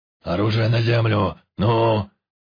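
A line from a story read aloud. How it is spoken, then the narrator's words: Monster's bark. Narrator (Russian): Рявкнул чудище с простреленной головой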